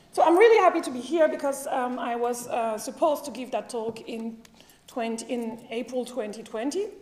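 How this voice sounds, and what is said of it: French-accented English. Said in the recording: “I'm one of the few French people here ... they are afraid to speak English ... So be kind with my accent, please.”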